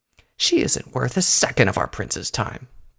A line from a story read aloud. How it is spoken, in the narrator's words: Pyre Valor muttered